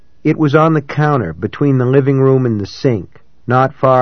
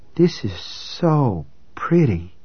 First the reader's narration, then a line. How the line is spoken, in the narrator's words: she said in a soft, awed voice